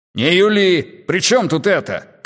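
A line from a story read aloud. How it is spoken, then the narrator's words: Shouted, father. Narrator (Russian): крикнул отец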